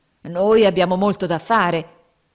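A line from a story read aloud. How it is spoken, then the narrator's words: Grumbling. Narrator (Italian): brontolavano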